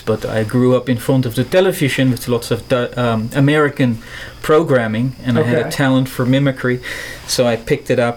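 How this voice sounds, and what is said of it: Neutral American accent. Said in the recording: “I'm from the Netherlands ... I go around with a... neutral American accent”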